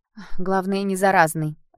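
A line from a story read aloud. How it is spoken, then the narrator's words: Slightly mocking woman. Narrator (Russian): ответила она чуть насмешливо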